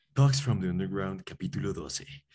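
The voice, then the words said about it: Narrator voice. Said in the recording (Spanish): “Introduciendo voz de narrador.”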